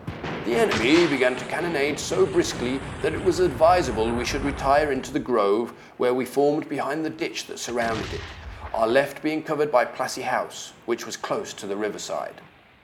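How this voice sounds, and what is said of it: Not very good generic posh accent. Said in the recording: “that's my generic posh accent. It's not a very good one, I'm afraid.”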